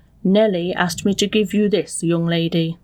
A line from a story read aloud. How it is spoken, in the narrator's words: coldly said